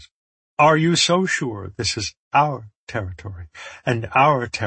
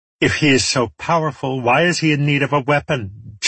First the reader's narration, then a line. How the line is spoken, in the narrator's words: Charity sneered